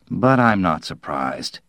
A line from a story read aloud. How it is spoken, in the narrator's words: he murmured